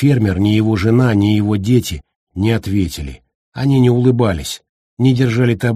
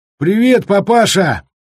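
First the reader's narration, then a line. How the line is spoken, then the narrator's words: Shout. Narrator (Russian): Кто-то крикнул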